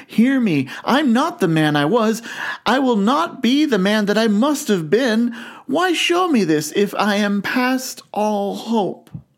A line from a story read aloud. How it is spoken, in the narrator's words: cried, tight clutching at its robe